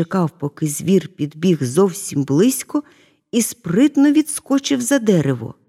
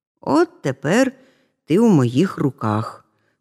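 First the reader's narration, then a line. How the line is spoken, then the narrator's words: Plain. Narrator (Ukrainian): сказав кравчик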